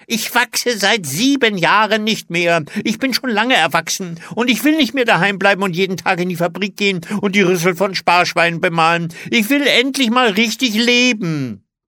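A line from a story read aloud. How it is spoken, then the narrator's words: Shouting. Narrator (German): schrie Olli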